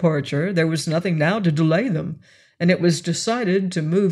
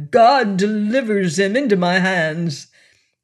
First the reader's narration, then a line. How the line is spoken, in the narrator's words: he cried